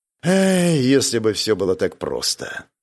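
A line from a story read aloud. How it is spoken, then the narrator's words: Sighing. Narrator (Russian): вздохнул Виктор Харгрейв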